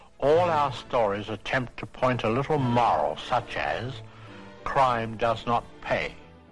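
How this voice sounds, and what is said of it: Thick, mumbled-sounding accent. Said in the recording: “Goodness, his accent, man. It sounds like he's got like peanut butter in his mouth”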